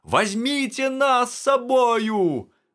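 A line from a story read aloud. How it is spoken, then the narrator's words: Group shouting. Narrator (Belarusian): крычалі яны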